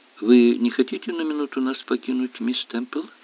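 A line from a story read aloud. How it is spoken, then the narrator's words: Gentle suggestion. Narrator (Russian): Инспектор мягко предложил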